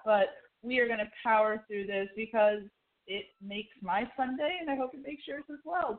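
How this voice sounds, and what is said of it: Hoarse voice, occasionally breaking. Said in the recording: “I have a bit of a sore throat, so if you hear my voice breaking a few times”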